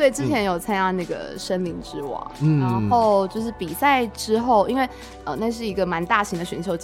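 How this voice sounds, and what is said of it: Usual voice. Nothing is said of it.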